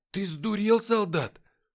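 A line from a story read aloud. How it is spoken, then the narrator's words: Frightened question. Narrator (Russian): испуганно спросил дежурный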